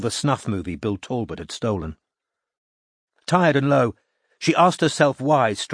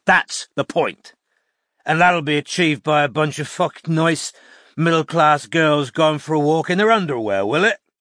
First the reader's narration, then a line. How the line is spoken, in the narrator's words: said Strike, his voice thick with alcohol